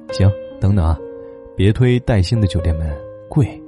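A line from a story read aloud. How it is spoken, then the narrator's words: Smiling. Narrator (Chinese): 我媳妇儿笑着说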